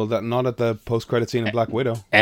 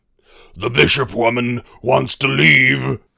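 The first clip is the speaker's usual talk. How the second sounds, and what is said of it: Imitates another person's voice. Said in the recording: “That's a very good impression.”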